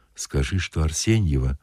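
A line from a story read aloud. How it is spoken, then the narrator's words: Whisper. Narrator (Russian): шепнул сторож солдату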